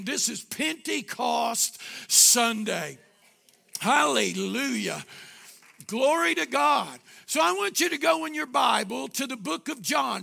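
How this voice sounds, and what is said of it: Raspy voice. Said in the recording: “My voice was raspy, still raspy”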